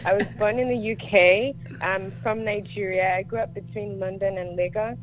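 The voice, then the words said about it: Mixed international accent. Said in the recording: “We can hear your accent. ... I call it an airport accent. ... It's like neither here nor”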